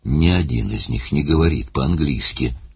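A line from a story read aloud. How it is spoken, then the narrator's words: Sullen grumble. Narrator (Russian): угрюмо проворчал Барни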